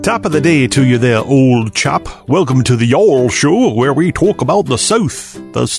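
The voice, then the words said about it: Exaggerated put-on British accent. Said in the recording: “not some kind of crazy UK accent ... the reason we're talking like that”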